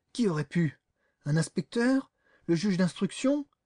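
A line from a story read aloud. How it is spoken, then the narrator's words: Choked voice. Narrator (French): d'une voix étranglée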